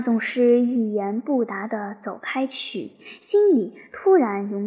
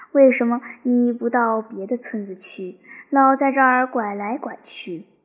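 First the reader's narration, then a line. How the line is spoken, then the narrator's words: Annoyed, loud question. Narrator (Chinese): 那些乡下老感到心烦，常常这样高声问他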